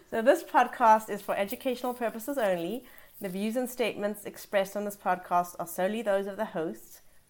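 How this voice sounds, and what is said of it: Unusual foreign-sounding accent. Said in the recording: “Because I have this strange accent”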